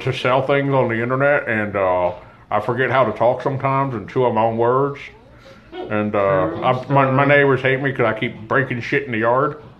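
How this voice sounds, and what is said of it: Mumbling, chewed words, imitates another person. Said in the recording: “good Tom impression ... he's always like chewing on the side of his cheeks and fucking up what he says”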